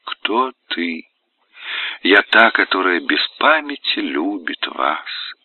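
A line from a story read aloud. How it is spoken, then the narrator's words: Matching whisper. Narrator (Russian): в тон шепнула она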